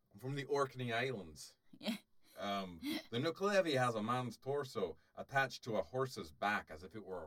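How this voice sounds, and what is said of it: Put-on Scottish accent, drifting Irish. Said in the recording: “I'm going to do it in a Scottish accent now ... Well, I think you're getting Irish ... I think you're leaning Irish”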